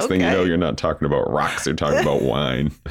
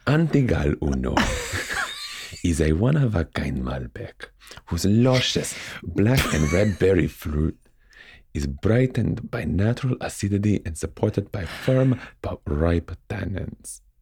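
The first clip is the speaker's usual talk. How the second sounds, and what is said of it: Put-on Argentinian accent. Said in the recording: “Read it with an accent. An Argentinian accent. ... It's that damn accent. Those goddamn Argentinians.”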